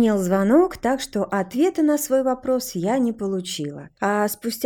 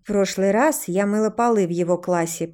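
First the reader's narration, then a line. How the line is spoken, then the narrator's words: Gloomy. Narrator (Russian): проговорила мрачно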